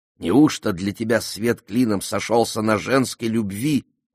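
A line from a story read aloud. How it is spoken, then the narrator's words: Grumbling. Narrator (Russian): ворчала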